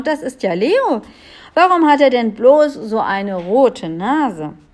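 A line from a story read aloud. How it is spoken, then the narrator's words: Astonished king exclaiming. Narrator (German): rief der König erstaunt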